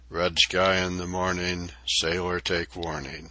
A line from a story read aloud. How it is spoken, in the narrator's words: our boat steerer prophetically muttered